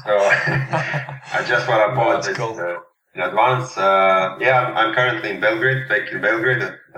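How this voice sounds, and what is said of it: Serbian accent. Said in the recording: “my Serbian accent. ... Sounds like a Borat accent.”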